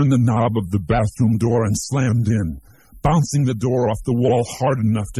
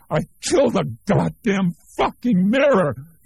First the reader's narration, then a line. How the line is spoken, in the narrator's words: he shrieked